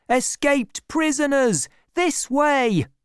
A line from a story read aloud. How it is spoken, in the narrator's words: another shouting